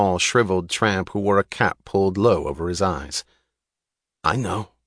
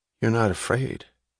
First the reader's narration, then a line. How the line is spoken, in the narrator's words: he said to her suddenly, a flat statement in a brusque, lifeless voice that had a note of wonder